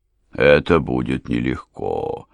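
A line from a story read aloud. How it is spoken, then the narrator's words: Old man drawling. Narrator (Russian): протянул старый аристократ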